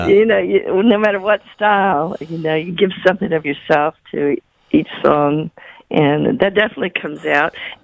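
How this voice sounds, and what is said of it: Softened Southern American accent. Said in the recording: “they tried to kind of dampen down my Southern accent a little bit ... It's still in there ... Soften the Southern accent a little bit.”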